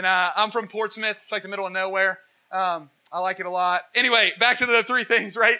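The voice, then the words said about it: Rural Southern Ohio hick accent. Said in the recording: “I have a hick accent too, if you haven't picked up on that. I'm from Southern Ohio originally.”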